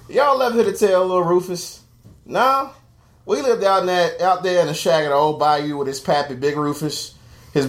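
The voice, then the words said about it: Put-on Southern US accent. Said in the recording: “It's going to be in like a southern accent”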